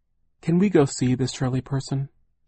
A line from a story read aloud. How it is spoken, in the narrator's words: Charles asked timidly